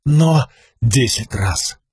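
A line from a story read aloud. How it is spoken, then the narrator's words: Whisper. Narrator (Russian): прошептал Каладин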